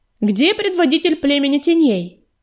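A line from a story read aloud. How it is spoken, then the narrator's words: Loud shout. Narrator (Russian): громко крикнула пятнистая звезда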